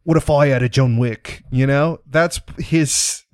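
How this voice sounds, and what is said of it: Bad Jason Statham impression. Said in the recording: “my horrible Jason Statham impression”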